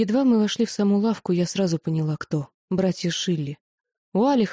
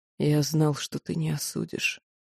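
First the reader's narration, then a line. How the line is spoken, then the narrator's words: Quiet. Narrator (Russian): тихо сказал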